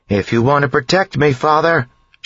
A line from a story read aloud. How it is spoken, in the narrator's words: she yelled